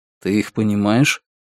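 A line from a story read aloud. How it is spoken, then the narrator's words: Quiet question, foreign language. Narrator (Russian): Лун на языке Раксура негромко спросил у Раскола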